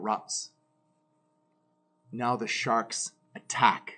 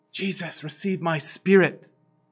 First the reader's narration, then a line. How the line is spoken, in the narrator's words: Falling to his knees, Stephen cried out with a loud voice